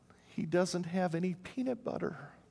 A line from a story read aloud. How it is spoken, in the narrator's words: With a heartfelt sigh, replied